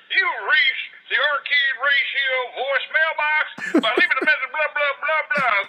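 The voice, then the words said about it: Imitates a voicemail greeting voice. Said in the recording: “I just like hearing your greeting message. It's pretty cool. ... I'll give you my impression.”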